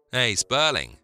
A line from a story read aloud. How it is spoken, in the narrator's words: barked Jack